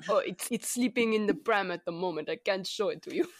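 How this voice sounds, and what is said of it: Deliberately bad fake German accent. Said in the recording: “This is our terrible space German accent”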